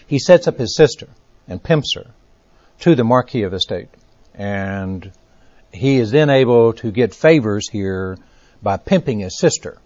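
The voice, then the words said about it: Texas accent. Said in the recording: “My Texas accent gets in the way of everything.”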